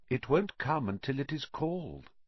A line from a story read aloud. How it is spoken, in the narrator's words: said Riddle calmly